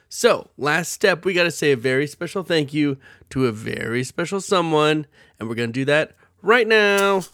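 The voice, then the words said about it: Sick, weird-sounding voice. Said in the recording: “My voice sounds weird because I'm sick”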